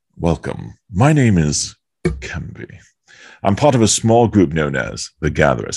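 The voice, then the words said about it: Otherworldly character accent. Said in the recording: “you're not doing the accent right. You're from another world.”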